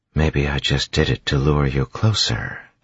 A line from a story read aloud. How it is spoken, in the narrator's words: she whispered, softly, yet loud enough that she knew tin-enhanced ears would hear her